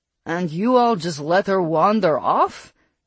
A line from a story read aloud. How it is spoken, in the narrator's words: Costin practically growled